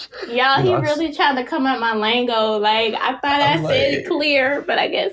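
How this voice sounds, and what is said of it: Thick Jacksonville Southern accent. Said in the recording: “The Duval accent is getting a little thick.”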